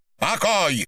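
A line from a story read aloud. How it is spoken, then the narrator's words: Irritated shout. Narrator (Russian): раздраженно выкрикнул Виноградов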